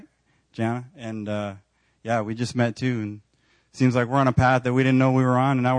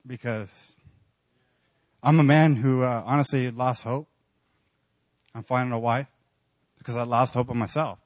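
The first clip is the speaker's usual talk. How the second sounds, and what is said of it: Choked-up, emotional voice. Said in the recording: “I'm going to get choked up”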